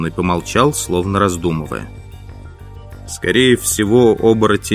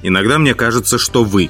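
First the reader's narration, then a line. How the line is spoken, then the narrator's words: Snapping. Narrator (Russian): огрызнулся темный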